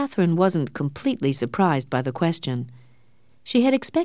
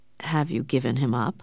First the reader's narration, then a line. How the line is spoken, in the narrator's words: Suddenly asked in a quiet voice